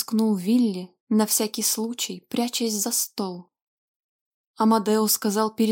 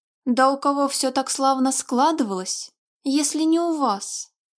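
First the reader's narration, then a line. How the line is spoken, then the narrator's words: Wailing yell. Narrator (Russian): завопил Вилли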